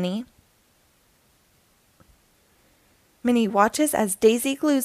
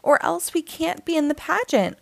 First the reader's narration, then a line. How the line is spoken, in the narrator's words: cries Millie